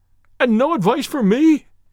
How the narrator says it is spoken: cried Blessington in a breaking voice

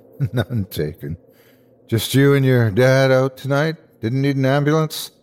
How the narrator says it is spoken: Jake sighed

